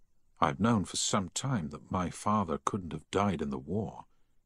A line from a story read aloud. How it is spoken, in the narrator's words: Harry said quietly